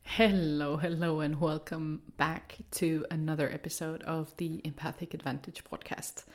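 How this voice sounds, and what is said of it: Deep, congested voice. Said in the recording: “the uber sexy baritone tones I'm giving off are due to the head cold that I picked up from my kiddo ... enough of my snottiness”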